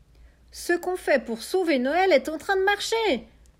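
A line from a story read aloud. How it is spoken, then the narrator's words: Exclaimed. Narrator (French): s'exclame Marius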